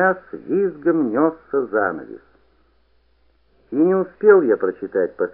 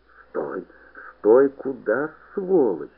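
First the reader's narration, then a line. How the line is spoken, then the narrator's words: Hoarse wheezing. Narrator (Russian): хрипел Подуст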